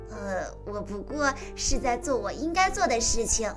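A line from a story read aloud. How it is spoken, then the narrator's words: Laughing. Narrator (Chinese): 维尼笑着说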